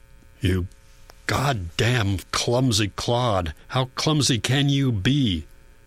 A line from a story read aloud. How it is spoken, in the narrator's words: snarls